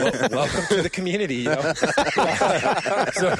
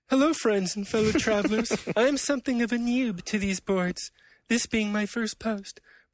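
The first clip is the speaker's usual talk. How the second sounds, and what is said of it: Emo nerd character voice. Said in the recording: “I always imagine the emo nerd voice for this guy”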